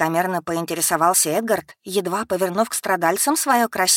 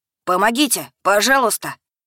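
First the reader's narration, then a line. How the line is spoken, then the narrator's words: Many animals shouting together. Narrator (Russian): Закричали в семь глоток звери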